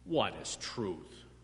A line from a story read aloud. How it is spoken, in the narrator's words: Pilate asked, probably with a sneer